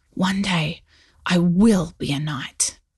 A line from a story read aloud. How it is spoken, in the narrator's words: He whispered to himself